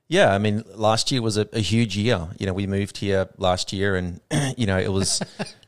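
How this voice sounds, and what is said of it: Australian accent. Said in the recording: “I heard your accent and I was like, man, I don't have an Australian in my crew”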